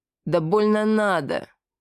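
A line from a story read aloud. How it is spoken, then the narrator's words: Nasal, receding voice. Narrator (Russian): прогнусавил удаляющийся голос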